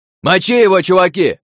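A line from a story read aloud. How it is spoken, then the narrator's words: Leader yelling. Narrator (Russian): завопил вожак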